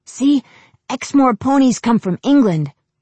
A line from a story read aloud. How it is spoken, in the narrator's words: the boy told her excitedly